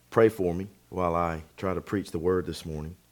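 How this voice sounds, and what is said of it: Strained, struggling voice. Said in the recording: “My voice is uh, not cooperating with me very well today”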